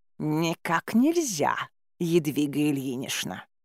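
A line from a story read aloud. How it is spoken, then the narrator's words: Venomous muffled hiss. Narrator (Russian): Ядовито прошипели в ответ уже из-под кровати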